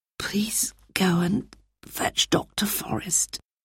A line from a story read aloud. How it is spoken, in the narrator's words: she whispered to Peter